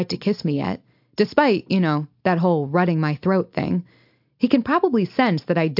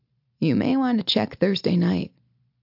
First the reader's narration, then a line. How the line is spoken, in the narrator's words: he murmurs